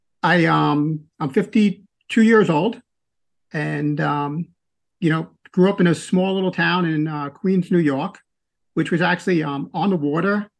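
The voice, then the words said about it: New York accent. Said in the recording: “You can tell from my accent, I'm not from the South. I'm from New York, from Queens”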